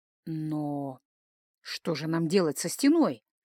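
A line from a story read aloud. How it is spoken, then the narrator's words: Muttered. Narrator (Russian): пробормотал жрец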